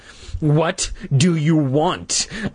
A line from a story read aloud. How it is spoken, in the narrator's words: I repeated in a trembling voice